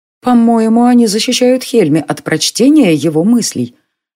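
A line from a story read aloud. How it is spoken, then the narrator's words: Uncertain. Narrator (Russian): неуверенно сказала Илия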